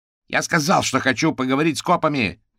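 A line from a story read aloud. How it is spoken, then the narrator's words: Barked into phone. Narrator (Russian): рявкнул гусеница в трубку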